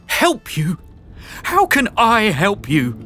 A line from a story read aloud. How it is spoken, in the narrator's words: cried her mother, furious at her daughter for creating such a mess, furious that it brought Sarah face to face with her own cowardice